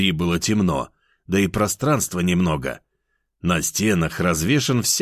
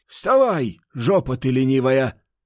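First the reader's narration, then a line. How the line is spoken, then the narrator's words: Shout, old man. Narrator (Russian): выкрикнул старик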